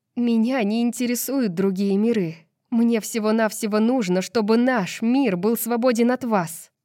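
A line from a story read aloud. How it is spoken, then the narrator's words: Through gritted teeth. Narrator (Russian): процедила сквозь зубы Брайс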